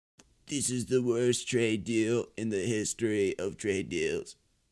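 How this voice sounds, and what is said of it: Donald Trump impression. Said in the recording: “That was Trump.”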